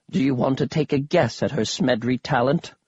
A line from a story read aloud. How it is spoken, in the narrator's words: Grandpa Smedri sighed, then whispered to me